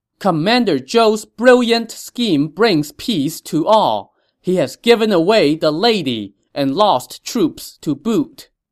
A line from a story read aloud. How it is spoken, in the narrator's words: they shouted in unison